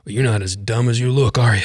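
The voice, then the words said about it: Imitates another person's voice. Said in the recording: “I don't do a very good Muhammad Ali impression, but I like doing it, so I'm going to do it”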